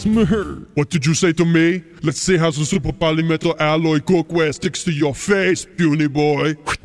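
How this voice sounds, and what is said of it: Poor Arnold impression. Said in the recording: “Okay, Arnold ... All celebrity voices are poorly impersonated.”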